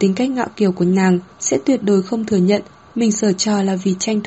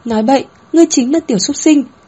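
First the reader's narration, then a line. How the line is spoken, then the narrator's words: Flustered, embarrassed cry. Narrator (Vietnamese): a một tiếng, má đỏ ửng lên, bên tai cũng đỏ bừng, không thừa nhận kêu lên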